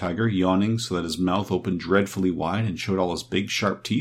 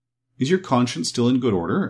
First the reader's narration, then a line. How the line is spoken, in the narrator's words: asked Dorothy anxiously